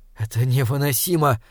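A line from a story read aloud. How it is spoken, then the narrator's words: Whisper. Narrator (Russian): прошептал он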